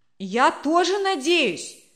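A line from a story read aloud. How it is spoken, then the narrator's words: Child shouting. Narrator (Russian): крикнул кто-то из детворы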